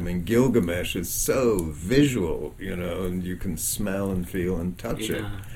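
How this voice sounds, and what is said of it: Warm mid-Atlantic accent, long vowels. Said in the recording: “having a voice with a mid-Atlantic accent ... I can use my voice like warm butter on toast ... when you're doing the long vowels, they just sound better”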